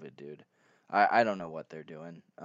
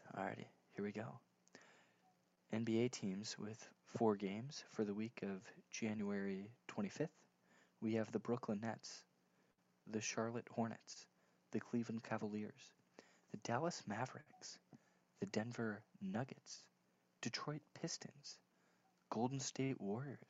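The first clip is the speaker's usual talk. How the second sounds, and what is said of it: Public-radio announcer voice. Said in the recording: “in my little NPR voice”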